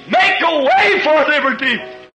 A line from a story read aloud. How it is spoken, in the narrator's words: screamed